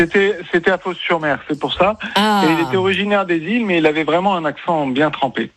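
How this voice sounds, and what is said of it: Usual voice. Nothing is said of it.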